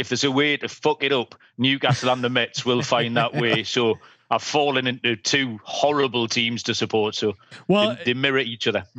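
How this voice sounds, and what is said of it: English accent. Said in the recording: “accent ... It is weird to hear a guy with an English accent talk baseball.”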